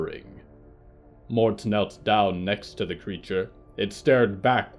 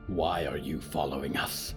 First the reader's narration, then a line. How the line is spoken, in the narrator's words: Yuretsi growled